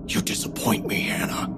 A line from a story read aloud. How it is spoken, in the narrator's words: he whispered, so softly only I could hear